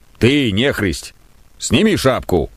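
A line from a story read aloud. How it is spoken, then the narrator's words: Rough, coarse voice. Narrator (Russian): сказал он грубо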